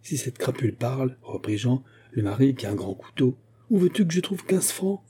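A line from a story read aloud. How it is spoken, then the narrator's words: Desperate woman crying out. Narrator (French): s'écria Denise, désespérée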